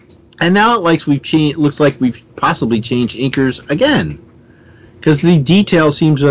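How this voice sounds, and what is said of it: Usual voice. Nothing is said of it.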